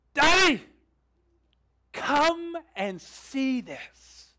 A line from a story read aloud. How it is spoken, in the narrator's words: daughters yell out with excitement